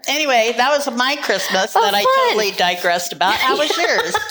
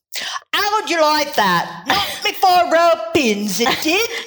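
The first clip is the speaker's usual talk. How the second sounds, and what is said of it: Put-on Cockney accent. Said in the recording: “That's very good. ... In a Cockney accent.”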